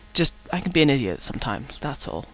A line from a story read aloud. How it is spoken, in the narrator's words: Rodney muttered